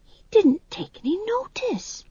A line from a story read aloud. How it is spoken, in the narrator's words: whispered